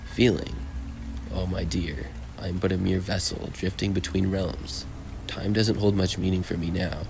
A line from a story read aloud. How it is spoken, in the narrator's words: he said